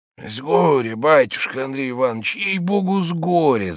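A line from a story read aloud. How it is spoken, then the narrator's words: Bitter wheezing. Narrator (Russian): засипел Захар, сморщившись горько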